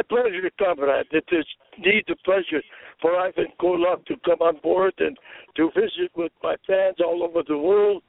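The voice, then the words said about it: Put-on foreign wrestling-persona accent. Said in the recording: “I thought I'd give you a little bit of that accent there, comrade, to remind the fans about 30-year-old Ivan Koloff”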